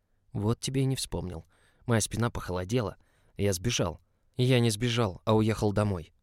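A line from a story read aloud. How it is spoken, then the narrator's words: Forced calm through gritted teeth. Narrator (Russian): процедил сквозь зубы как можно спокойнее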